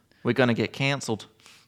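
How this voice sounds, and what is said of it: Good put-on Australian accent. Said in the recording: “That was quite a good Australian accent, wasn't it?”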